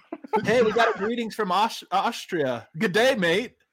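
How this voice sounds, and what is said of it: Convincing put-on accent. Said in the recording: “Good accent. You nailed that.”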